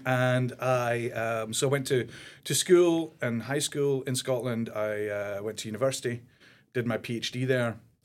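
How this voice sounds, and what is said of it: Scottish accent. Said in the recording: “I'm German by birth. I grew up in Scotland from the age of 9. So developed this accent quite quickly.”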